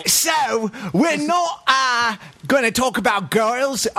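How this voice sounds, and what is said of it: Put-on British accent. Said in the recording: “I'm doing this authentic British accent”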